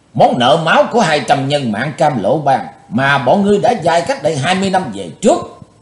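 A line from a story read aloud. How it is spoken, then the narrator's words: Hissed through clenched teeth. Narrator (Vietnamese): Chí Tôn rít qua hai hàm răng cắn chặt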